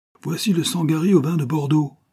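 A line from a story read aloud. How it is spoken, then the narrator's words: Shrill retort. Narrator (French): répliqua un autre d'un ton glapissant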